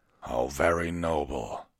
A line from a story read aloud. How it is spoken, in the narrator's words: Vengard growled